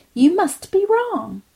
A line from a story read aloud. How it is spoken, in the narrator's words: she said sweetly